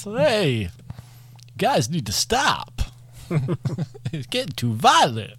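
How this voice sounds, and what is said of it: Imitates another person's voice, badly. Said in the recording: “my really bad Christopher Walken impression”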